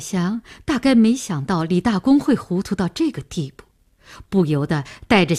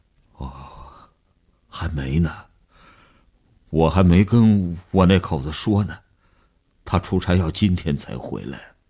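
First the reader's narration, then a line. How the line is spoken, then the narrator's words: Weak, trembling voice. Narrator (Chinese): 李大公的声音已经抽空了底气，嘘嘘地发着颤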